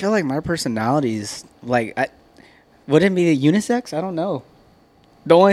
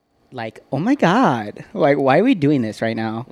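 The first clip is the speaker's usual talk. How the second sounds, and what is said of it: Valley girl woman's voice. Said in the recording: “what's your woman voice? ... I'm a Valley girl. ... Valley girl Karen”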